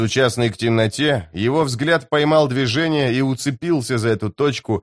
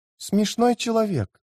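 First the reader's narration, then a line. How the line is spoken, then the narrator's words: Whisper. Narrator (Russian): прошептала она наконец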